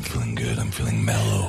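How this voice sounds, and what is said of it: Deep, smooth late-night radio voice. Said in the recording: “This is my radio voice ... Barry White”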